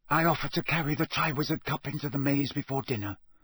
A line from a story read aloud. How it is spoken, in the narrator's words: whispered Barty Crouch